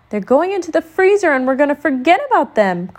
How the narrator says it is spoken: cried Brother

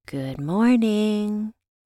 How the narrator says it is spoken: I purred into the phone

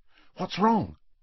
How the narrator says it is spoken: said Hermione in an anxious voice

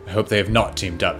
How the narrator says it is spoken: Felix mutters

